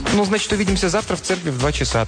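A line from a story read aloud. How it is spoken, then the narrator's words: Hurried. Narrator (Russian): торопливо произнесла миссис Колдуэлл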